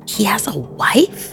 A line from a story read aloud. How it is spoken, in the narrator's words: hissed Neva